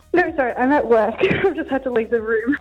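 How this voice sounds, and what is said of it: Breathless, out of breath. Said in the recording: “It sounds like you're running from the police... I run out of breath really quickly... Breathe in and out”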